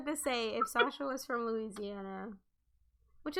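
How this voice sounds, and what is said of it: Usual voice. Nothing is said of it.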